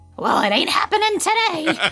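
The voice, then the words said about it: Marge Simpson cartoon voice impression. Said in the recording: “an excellent Marge impersonation ... that was really well good. Done. ... it's like Julie Kavner herself is on the show with us today”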